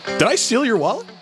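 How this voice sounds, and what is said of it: Old New York Jewish man voice. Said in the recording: “you sound like a 70-year-old Jewish guy from New York City. ... my favorite Zach impression.”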